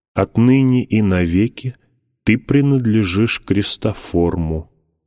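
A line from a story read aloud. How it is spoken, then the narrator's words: Plain. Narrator (Russian): сказал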